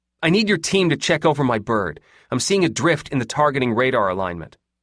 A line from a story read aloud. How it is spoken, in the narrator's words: she snapped loudly